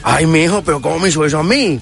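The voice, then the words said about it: Put-on accent, humorous voice. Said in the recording (Spanish): “me pongo como a hablar con otros acentos, otros idiomas... me pongo a hablar de otra manera”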